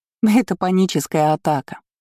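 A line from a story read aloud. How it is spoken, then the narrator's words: Laughing. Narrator (Russian): засмеялась Оля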